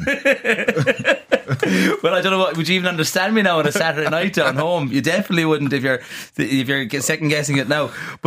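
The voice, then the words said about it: Kerry Irish accent. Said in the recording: “this isn't even your thick Kerry accent ... this is barely decipherable as it is”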